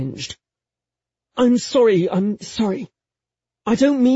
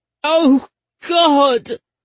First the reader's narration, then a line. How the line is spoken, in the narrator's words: wailed in unfocused despair